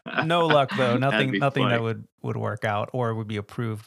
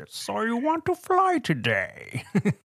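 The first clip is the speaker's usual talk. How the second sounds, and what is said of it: Bane-style masked voice impression. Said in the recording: “a Bane mask that I could somehow modify ... It'll change my voice. It's a voice changer.”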